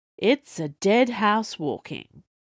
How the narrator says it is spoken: Fordyce said in a measured tone

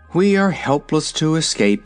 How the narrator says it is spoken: sighed the Wizard

